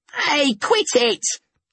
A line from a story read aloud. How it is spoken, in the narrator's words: I yelled